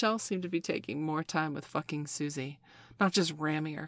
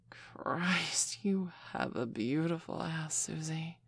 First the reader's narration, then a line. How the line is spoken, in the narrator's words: Michelle breathed softly